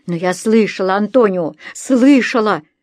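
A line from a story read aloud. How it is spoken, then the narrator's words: Woman moaning. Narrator (Russian): стонала женщина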